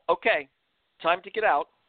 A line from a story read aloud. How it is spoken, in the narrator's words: the guide shouted